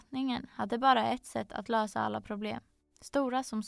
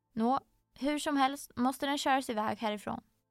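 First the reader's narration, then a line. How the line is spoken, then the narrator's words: Very firm. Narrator (Swedish): sa kungen mycket bestämt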